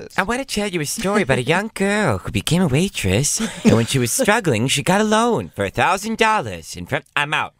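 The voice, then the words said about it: Impression of Barbara. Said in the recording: “does a Barbara impression ... A great Barbara”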